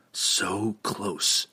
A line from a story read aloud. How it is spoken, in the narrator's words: he whispered helplessly